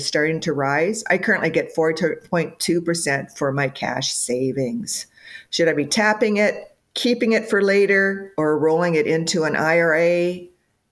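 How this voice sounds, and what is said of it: Midwestern American accent. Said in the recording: “You can tell that old Midwest accent.”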